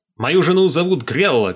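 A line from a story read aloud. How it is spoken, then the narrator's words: Shouting. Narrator (Russian): кричал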